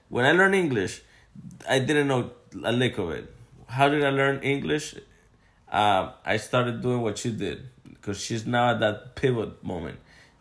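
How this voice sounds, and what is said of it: Noticeable non-native English accent. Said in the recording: “you guys probably hear my accent. Some would think some of her family members think it's a 10 out of 10 accent, 7 out of 10, 8 out of 10. Most people think it's a 4 out of 10.”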